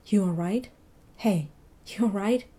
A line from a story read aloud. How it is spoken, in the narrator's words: Mitchell whispered